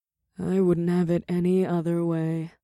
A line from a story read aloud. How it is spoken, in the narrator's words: the witch purred